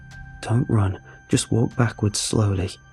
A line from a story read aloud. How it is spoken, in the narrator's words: I told her quietly through my set jaw